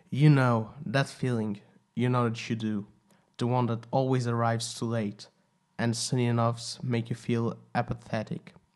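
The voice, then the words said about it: Slight Portuguese accent. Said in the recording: “a little bit of a Portuguese accent”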